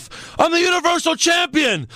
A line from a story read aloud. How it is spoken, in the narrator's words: Owens then yells at the ref